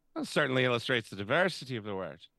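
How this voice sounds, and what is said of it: Imitates a film character's accent. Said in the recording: “That was a I good accent, it. too. That was really well done there.”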